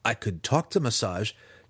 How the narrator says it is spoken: pleaded

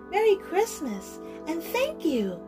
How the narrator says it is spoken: Clara cried

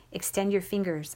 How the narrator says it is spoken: whispered

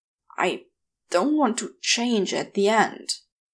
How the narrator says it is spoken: Crowley gets out between groans

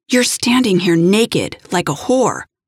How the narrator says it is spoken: I growled, my anger rising

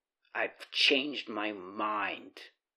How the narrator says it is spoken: Herman growled

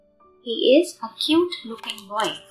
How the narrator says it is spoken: Albert said

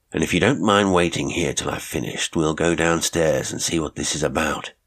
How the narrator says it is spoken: said grimly

